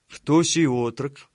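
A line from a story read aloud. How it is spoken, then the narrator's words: Low, kindly question. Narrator (Russian): ласково улыбаясь Артему, низким голосом спросил тучный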